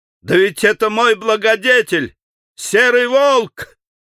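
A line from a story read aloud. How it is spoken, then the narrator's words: Shouting. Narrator (Russian): Иван-царевич закричал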